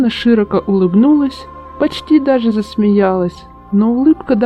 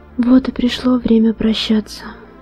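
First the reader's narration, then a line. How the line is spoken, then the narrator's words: Quiet, gentle. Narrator (Russian): тихо сказала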